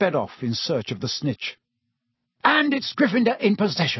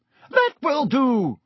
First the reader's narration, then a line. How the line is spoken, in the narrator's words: shrieked Madam Hooch